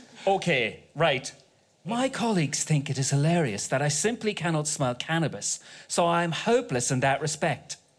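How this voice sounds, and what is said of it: Put-on English accent. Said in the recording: “No, it's English. I was doing an English accent.”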